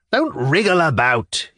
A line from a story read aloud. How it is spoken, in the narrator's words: he shouted to the girl